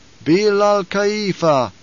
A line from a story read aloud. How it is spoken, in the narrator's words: intoned the troop